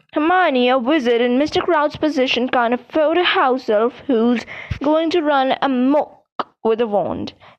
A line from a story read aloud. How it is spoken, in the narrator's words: said Percy pompously